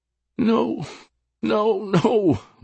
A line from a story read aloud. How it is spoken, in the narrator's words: moaned Sophia